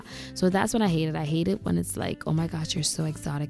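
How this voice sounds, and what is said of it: Grenadian accent. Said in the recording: “I can hear that accent ... I spotted the accent ... I'm from Grenada”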